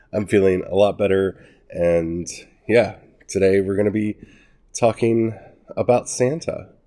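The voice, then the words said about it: Congested voice from a cold. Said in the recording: “I still kind of have a cold, so my voice is still a little messed up”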